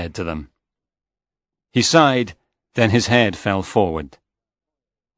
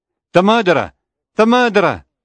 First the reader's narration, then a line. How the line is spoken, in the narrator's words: cried